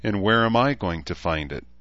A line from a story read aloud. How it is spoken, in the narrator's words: She asked herself sadly